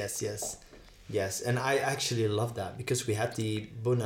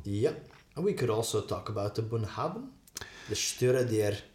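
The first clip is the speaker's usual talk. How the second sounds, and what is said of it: Put-on Scottish accent. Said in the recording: “You're practicing your Scottish accent for next week already.”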